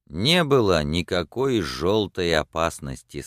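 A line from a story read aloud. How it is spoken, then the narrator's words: Plain. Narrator (Russian): сказал он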